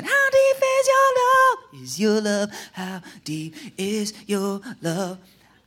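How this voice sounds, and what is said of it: Singing in falsetto head voice. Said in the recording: “I've been working on my falsetto just for today. Working on that head voice”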